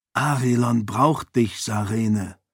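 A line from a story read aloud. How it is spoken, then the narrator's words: Whispered reply. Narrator (German): erwiderte er flüsternd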